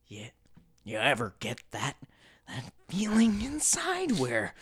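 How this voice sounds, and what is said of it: Weak impression of a creepy voice. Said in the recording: “He's very creepy, the way that he talks. I mean, I was trying to do my best impression, but I'm not even doing a good job.”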